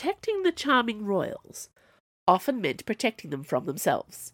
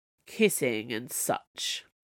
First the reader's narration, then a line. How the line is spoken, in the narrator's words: she sighed